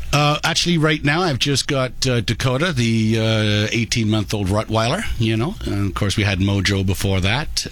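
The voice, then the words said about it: English accent. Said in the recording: “where'd you get that sexy accent from? ... Where'd you get that sexy accent from? ... originally from England”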